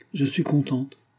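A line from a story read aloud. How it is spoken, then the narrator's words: Grave reply. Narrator (French): répondit-elle d'un ton grave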